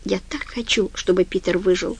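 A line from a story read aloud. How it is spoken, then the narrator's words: Whisper. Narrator (Russian): прошептала Френ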